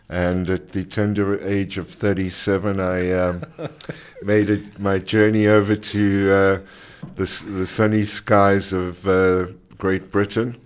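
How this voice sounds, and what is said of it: South African accent. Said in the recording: “the accent is South African”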